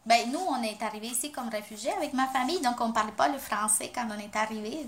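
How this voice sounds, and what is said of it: Strong Latino accent in French. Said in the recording (French): “nous, les, Latinos, on a un accent qui est très fort”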